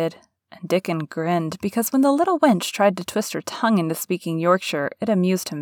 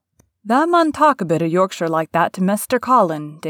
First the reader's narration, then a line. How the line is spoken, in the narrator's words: Dickon chuckled